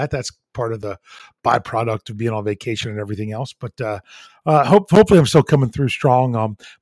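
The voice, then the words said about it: Slightly hoarse, fading voice. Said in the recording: “I'm losing my voice a little bit in case you all didn't notice that”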